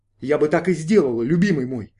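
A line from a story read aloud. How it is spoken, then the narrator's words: Plain. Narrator (Russian): ответила она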